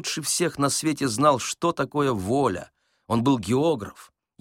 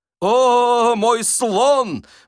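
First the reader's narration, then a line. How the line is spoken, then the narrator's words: Defiant shout. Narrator (Russian): вызывающе крикнул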